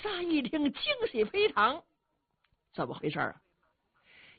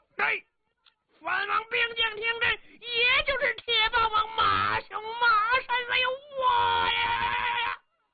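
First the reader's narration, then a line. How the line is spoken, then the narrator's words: Sudden loud shouting. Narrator (Chinese): 突然间 高声喊嚷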